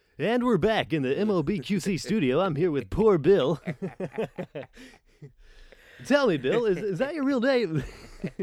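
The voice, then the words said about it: Cheesy radio DJ voice. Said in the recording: “I sound like a douchebag radio jockey.”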